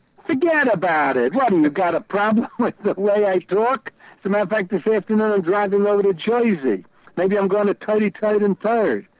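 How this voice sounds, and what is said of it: Exaggerated New York accent. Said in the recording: “that is kind of like the New York accent”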